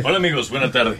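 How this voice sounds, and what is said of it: Deep polished radio-announcer voice. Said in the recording (Spanish): “esa es voz de locutor”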